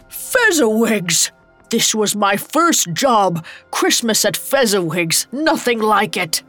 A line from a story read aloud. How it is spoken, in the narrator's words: A familiar laugh roared over the music